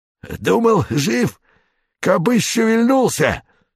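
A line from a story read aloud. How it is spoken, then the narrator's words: Hoarse rasp. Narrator (Russian): прохрипел рыжий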